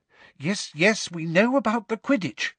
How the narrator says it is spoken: said Hermione in a tense voice

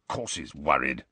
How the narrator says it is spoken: growled Moody

